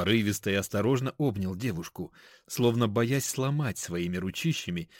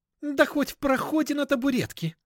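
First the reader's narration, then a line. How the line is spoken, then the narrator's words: Joyful squeal. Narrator (Russian): Даша радостно завизжала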